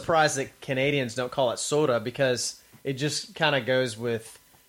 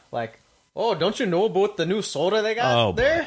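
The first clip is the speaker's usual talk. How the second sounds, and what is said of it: Put-on Canadian accent. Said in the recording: “Canadian accents ... You know that I'm good at my Canadian accent. I'm good at it.”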